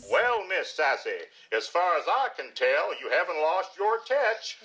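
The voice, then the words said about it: Bad put-on English or Southern accent. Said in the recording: “he's doing an English accent for some reason. And now over Southern. It was like a Steel Magnolias. Really bad acting”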